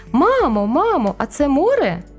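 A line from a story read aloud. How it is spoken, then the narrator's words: Toddler exclaiming. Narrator (Ukrainian): вигукнув трирічний карапуз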